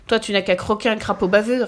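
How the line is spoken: Sneering laugh. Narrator (French): ricana Mirabelle

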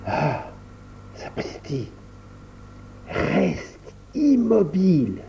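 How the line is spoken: Murmured. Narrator (French): murmura-t-il à Viola

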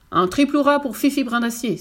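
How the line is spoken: Captain exclaimed. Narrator (French): s'exclama le capitaine des pompiers

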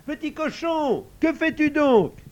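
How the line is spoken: Little girl shouting. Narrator (French): cria la petite Aurore

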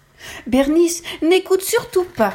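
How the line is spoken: Shout. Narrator (French): crie Sophie

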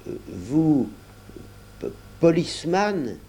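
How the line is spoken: Timid question. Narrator (French): interrogea timidement Chapian

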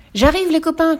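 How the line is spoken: Shouted. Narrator (French): cria Loup

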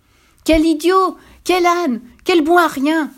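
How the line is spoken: Screamed. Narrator (French): hurla-t-elle

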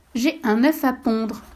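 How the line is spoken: Curt reply. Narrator (French): répondit d'un ton sec

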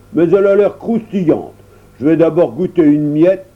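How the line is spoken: Grumble. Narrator (French): grommela-t-il

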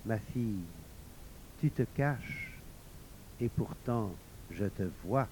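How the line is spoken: Gently. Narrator (French): Elle dit doucement

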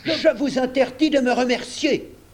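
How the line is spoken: Lord exclaiming. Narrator (French): s'écria le châtelain

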